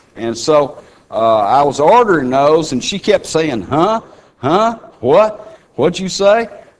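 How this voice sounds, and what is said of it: Texan accent. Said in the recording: “I'm speaking perfect Texican to you ... my brogue gives me away from where I'm from ... you can still tell I'm a Texan”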